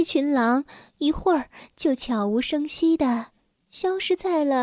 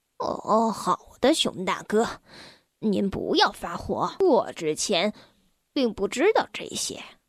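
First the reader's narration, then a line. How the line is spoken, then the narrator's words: Old wolf, low muttering. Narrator (Chinese): 老狼低声的嘟囔道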